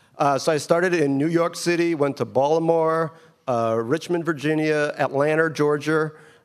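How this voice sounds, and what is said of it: Queens New York accent. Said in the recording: “I have a Queens accent.”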